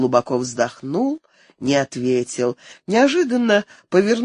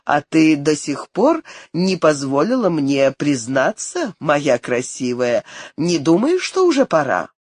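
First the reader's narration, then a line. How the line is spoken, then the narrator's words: Smiling question. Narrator (Russian): он спросил с улыбкой в голосе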